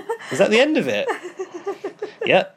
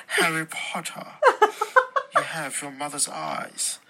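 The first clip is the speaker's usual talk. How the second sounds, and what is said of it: Poor higher-pitched Snape impression. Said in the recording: “He sounds like Snape. Is he actually like a higher pitched version of Snape? ... That was probably the worst impression I've ever heard.”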